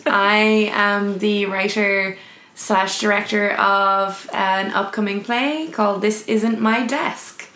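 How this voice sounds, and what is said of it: Nasal voice, mid-Atlantic accent. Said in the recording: “my weird nasal voice ... you have a beautiful voice and also a beautiful mid-Atlantic accent”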